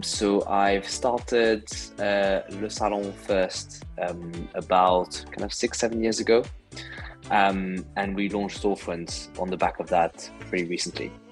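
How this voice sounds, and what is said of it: French accent. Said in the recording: “I'm originally from France, as you can probably guess from my name and my accent.”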